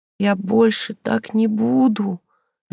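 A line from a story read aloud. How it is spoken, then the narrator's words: Sobbing. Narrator (Russian): зарыдала она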